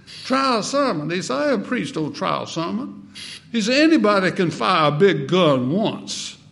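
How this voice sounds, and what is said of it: South Carolina accent impression of R.G. Lee. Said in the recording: “He was from South Carolina and had that South Carolina accent.”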